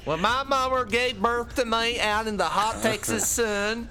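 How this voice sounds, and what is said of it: Inconsistent put-on Texan accent. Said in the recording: “the accent's all over the show”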